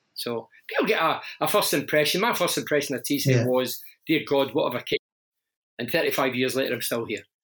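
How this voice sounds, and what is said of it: Broad Glasgow Scottish accent. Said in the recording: “you've got the broad Glasgow accent ... my Scottish accent”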